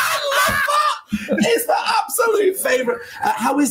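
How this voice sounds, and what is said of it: Usual voice. Nothing is said of it.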